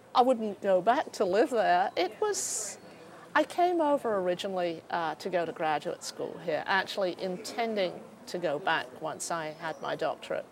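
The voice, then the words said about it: Slight British accent. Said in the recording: “I detect a slight accent. ... I still have the accent. ... From Britain. I grew up just outside London.”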